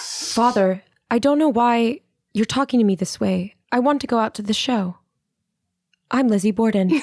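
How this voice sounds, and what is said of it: Flat, robotic character voice. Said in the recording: “impersonate Lizzie Borden from the Lizzie Borden movie ... like an AI robot that's just learned to speak”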